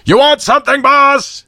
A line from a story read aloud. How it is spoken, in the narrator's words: boomed